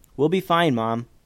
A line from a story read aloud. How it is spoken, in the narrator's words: said Joseph